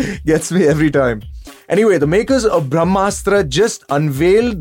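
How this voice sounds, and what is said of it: Usual voice. Nothing is said of it.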